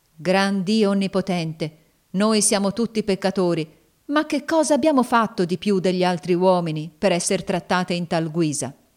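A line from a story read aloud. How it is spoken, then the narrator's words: Fervent prayerful exclamation. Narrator (Italian): Chessy esclamò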